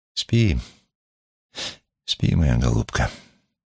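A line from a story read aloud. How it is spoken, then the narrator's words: Tender, affectionate. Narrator (Russian): Ахер сказал, ласково поглаживая ее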